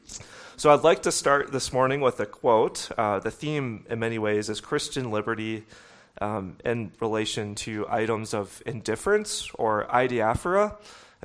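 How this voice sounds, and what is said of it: Voice slowed by a cold. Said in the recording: “I have a slight cold this morning ... I am forced to slow down this morning”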